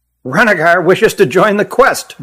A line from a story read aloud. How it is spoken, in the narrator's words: blurted Hutt